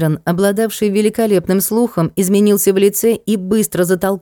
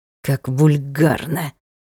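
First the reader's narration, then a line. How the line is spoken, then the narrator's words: Through gritted teeth. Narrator (Russian): Процедил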